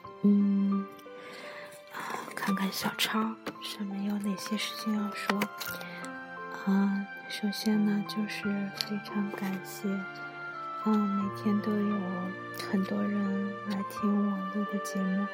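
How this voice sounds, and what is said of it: Quiet, hushed speaking. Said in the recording (Chinese): “悄悄的、小声的”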